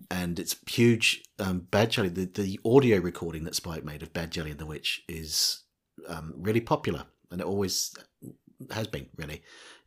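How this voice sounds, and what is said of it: New Zealand accent. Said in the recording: “You may have detected from my accent that I was born in, I was born in New Zealand, actually.”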